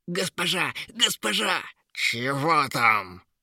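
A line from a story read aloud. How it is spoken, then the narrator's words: Growling. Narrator (Russian): зарычала Ера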